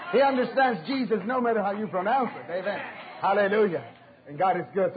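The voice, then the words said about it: New York accent. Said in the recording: “you speak with an accent. I says, I'm from New York.”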